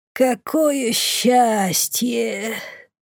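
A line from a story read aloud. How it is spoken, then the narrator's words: Weak moan. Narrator (Russian): Простонала обмякшая на моих руках Бумба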